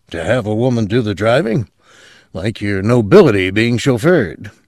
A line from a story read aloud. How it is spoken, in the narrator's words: Benz murmured